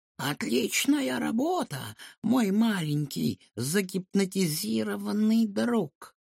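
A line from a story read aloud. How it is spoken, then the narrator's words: Hoarse voice. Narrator (Russian): произнес хриплый голос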